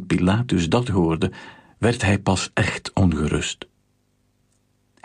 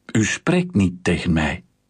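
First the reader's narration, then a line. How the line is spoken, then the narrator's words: Plain. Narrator (Dutch): zei Pilatus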